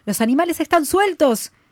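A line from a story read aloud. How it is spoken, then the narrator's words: Shouted in chorus. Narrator (Spanish): gritaron a coro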